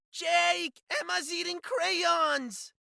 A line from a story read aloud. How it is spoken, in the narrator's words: Bella wailed